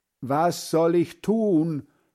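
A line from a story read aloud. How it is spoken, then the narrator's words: Calling out. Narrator (German): ruft Hans Frieder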